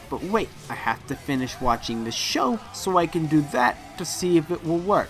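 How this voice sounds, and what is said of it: Put-on accent. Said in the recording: “if I kept doing this accent, you're gonna turn off the podcast”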